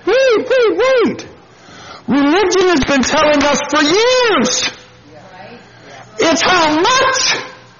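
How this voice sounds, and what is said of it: Yelling, loud excited voice. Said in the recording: “I don't know why I'm yelling, but I'm just happy.”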